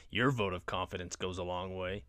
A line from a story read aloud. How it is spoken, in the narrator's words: Connor scoffs